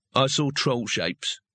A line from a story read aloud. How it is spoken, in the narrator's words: he said flatly